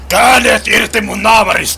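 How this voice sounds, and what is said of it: Shouting. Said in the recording (Finnish): “Älä huuda!”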